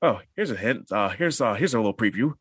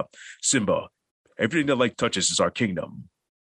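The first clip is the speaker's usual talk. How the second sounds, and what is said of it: Lion King character voice impression. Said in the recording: “voice impersonation ... Lion King. Lion King.”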